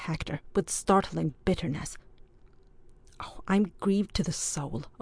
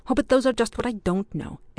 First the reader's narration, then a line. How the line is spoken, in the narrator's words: exclaimed Ardroy, more and more bewildered